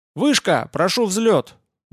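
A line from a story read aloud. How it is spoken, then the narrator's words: Cheerful shout. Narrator (Russian): бодро крикнула Света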